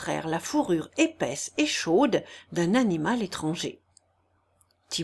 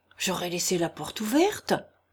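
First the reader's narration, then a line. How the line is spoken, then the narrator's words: Muttering to himself. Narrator (French): murmura le sabotier se parlant à lui-même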